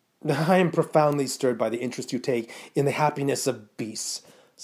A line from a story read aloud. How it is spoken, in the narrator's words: said Mrs